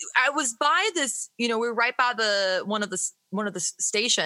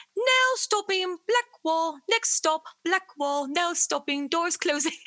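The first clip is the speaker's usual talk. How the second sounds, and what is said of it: Imitates automated train announcement voice. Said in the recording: “it was like the automated voice ... that's my impression of it”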